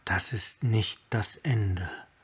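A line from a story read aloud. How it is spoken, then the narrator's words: Whisper. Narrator (German): flüsterte er seinem Hauptmann zu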